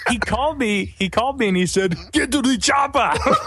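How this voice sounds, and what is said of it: Arnold Schwarzenegger impression. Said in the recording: “using the Arnold Schwarzenegger accent”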